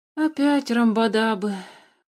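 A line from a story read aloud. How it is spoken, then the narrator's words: Sighed. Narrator (Russian): вздохнул Алеша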